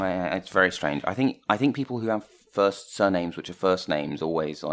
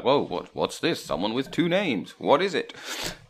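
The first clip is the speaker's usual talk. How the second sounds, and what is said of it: Voice of a sleeping giant. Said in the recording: “voice good impression of your sleeping giant”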